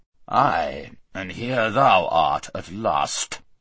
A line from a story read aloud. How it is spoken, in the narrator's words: said the king in a very gruff voice